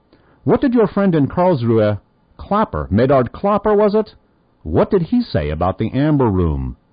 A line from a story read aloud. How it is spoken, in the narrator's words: said firmly